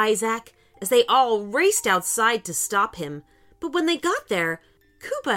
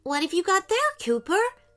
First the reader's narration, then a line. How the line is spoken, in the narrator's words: asked Ellie